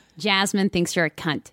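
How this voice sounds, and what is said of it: Put-on American accent. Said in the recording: “This is so jarring with an American accent.”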